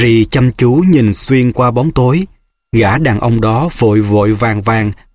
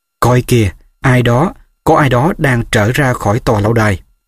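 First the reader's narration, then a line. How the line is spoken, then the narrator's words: Whispering. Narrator (Vietnamese): Hermione thì thầm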